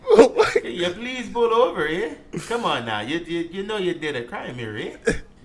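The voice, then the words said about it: Put-on Canadian accent, sounding Irish. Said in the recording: “Bro, you really sound like that is not a Canadian exit ... I work on my accent ... That's like an Irish accent”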